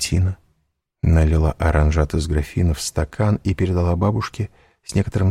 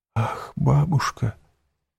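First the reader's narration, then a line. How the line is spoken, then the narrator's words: Whisper. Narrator (Russian): прошептала Валентина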